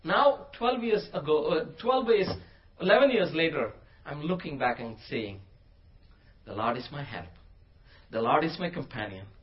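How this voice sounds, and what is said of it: Non-native English accent. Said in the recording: “I have a funny accent. I'm not very fluent in English.”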